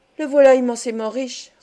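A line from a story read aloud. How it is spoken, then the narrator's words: Sighing reply. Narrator (French): repartit en soupirant la Bianca Cavatolino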